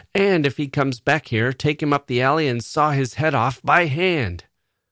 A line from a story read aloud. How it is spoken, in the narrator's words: Bill was shouting to Chuck